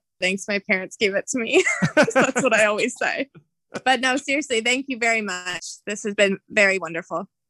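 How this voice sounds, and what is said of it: Thick regional accent. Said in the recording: “your accent is probably just a little thicker than mine”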